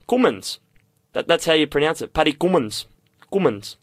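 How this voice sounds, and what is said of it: Put-on South African accent, like Kevin Pietersen. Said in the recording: “I don't know if you're trying to do like a South African accent. ... if you close your eyes, it's almost as if I'm talking to Kevin Peterson.”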